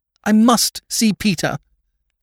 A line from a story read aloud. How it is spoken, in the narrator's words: cried Lady Mary